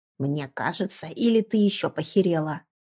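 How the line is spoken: Old man's creaky voice. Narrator (Russian): проскрипел дед

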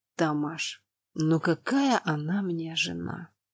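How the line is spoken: Weary question. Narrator (Russian): устало спросил Роналд

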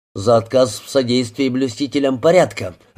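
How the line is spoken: Thunderous bark. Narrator (Russian): рявкнул Хейс громовым голосом

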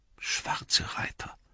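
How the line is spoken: Murmured. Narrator (German): murmelte Pippin

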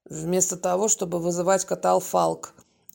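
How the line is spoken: Grim joking tone. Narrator (Russian): мрачно пошутил Володя

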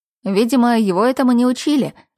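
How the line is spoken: Wry snort. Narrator (Russian): хмыкнул Юншин

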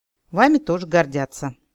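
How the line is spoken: Elf's snort. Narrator (Russian): эльф хмыкнул

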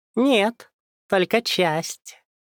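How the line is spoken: Cheerful. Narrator (Russian): весело произнес он

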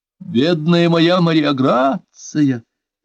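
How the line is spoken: Exclamation. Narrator (Russian): воскликнула

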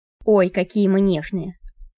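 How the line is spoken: Grumbling. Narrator (Russian): проворчал он

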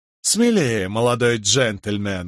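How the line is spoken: Laughing loudly. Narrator (Russian): расхохотался Тоби

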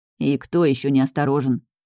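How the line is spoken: Grumbling. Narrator (Russian): проворчал Эрик

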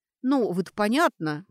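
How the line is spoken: Mutter. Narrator (Russian): пробормотала Сашка

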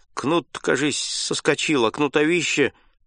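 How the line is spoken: Muttered. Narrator (Russian): Егор пробормотал

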